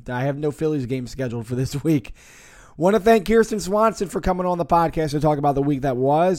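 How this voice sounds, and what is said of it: Hoarse, strained voice. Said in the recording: “the horse version of the Phillies Nation podcast ... Sorry for the voice troubles this week, but hopefully next week I'll be a little bit clearer”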